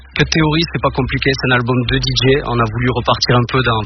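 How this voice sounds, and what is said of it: Southern French Toulouse accent. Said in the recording (French): “j'entends ce bel accent là ... Toulouse ... au sud”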